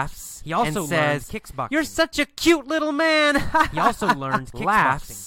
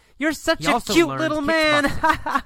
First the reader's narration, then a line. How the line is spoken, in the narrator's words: He also learned laughs and says